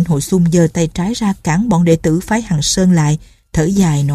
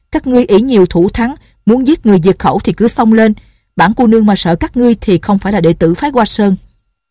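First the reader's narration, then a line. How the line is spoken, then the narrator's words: Defiant shout. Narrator (Vietnamese): Nhạc Linh Sang la lên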